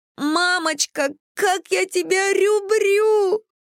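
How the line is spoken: Daughter's theatrical wail. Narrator (Russian): завопила дочь

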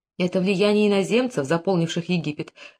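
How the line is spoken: Exclaiming. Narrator (Russian): воскликнула царица

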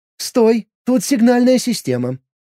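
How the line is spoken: Squeaky spark. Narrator (Russian): пискнула искорка

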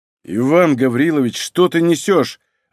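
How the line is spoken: Snapping. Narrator (Russian): огрызнулся Малинин

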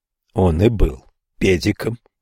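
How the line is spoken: Grumbling mutter. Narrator (Russian): буркнул Ньюсом

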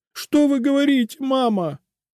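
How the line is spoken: Fake sobbing. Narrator (Russian): снова фальшиво всхлипнула Эльза

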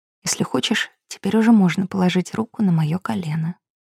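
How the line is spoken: Whispered. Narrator (Russian): я прошептала

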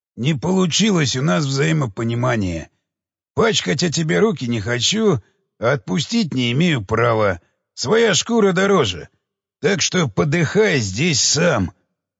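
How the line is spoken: Hoarse rasp. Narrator (Russian): прохрипел

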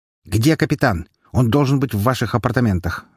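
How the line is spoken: Bark. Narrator (Russian): рявкнул Беляев

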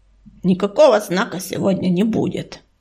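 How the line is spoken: Grumbled over shoulder. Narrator (Russian): буркнул через плечо Чернозвезд

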